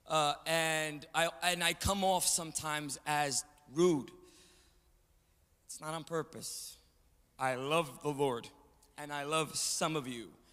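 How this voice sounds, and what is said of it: Strong New York Puerto Rican Italian accent. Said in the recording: “I also have a very strong New York, little Puerto Rican and Italian accent. You'll hear it. You'll hear my English. It's not the best.”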